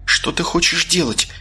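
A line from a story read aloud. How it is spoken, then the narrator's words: Quiet frightened question. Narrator (Russian): тихо поинтересовалась бледная от страха биолог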